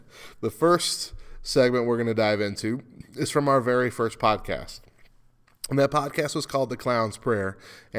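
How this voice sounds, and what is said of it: Congested, stuffed-up voice. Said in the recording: “I'm a little stopped up. ... I have a cold, and I might be slightly delirious on cold medicine”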